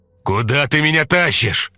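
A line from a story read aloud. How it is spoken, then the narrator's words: Shout. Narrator (Russian): закричал он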